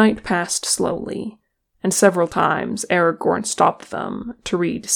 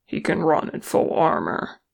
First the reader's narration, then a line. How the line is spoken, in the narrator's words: Nelly grunted as he pounded along